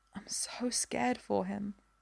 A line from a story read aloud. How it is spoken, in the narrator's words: she whispers